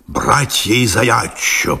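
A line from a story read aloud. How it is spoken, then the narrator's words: Mutter. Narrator (Russian): пробормотал он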